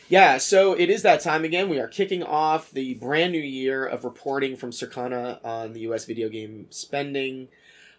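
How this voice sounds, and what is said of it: Sick, croaky voice with vocal fry. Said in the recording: “as you can hear, at least in my voice, our eldest brought us home something special from college ... right now I'm the king of vocal fry”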